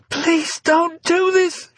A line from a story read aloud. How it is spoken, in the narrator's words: she began to beg desperately, terror making her nauseous